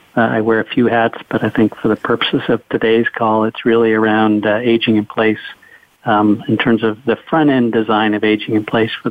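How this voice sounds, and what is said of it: Canadian accent. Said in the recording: “if you pick up a Canadian accent, that's where that's coming from”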